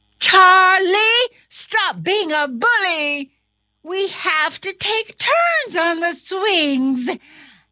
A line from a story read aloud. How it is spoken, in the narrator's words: The other student shouted